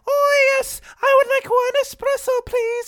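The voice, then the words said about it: Very high-pitched character voice. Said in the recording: “I like how high you took that. ... character voice ... top of the range”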